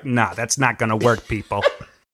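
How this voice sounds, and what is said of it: Imitates another person's voice. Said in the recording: “my Brian imitation”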